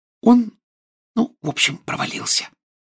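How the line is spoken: Whisper. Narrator (Russian): прошептала Гермиона

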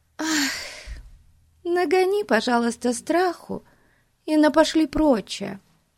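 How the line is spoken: Pleading voice. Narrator (Russian): умоляющим голосом попросила Бетси

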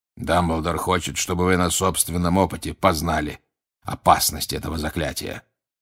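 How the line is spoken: Authoritative, unyielding. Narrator (Russian): непререкаемым тоном произнес Грюм

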